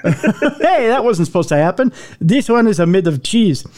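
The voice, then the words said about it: Put-on Russian-Italian accent. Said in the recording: “It's a little bit of a Russian-Italian accent I have.”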